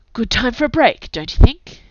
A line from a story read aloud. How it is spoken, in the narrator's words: He said sharply